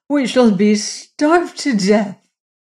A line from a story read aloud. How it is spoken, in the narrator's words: she cried